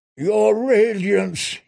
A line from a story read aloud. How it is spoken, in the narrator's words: he moaned